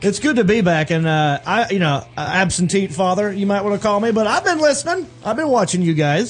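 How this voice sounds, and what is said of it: Southern US accent, North Carolina. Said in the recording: “Is that your real Southern accent? Because you didn't have that before. ... I amp it up when I get on. ... When I get louder, it comes out more. ... North Carolina.”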